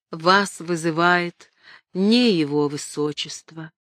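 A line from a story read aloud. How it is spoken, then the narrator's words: Sad. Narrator (Russian): Робин сказал печально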